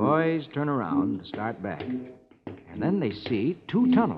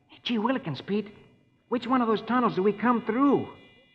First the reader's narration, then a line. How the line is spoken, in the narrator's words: Rusty exclaims